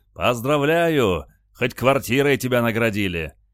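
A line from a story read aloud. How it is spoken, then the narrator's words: Joyful shout from doorway. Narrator (Russian): Генерал от дверей радостно закричал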